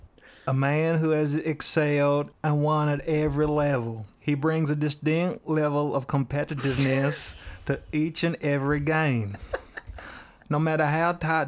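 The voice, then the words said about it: Put-on Southern American accent. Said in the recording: “The only American accent I can do is a Southern one ... That'll be Bill Walton when he traveled to the South.”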